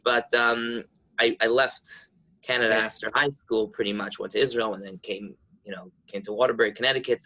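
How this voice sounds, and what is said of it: New York accent. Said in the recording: “The accent the accent says New York all the way.”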